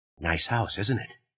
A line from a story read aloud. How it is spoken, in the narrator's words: almost whispered from behind his shoulder